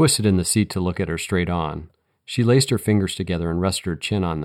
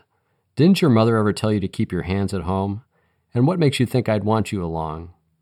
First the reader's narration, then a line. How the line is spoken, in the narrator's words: laughed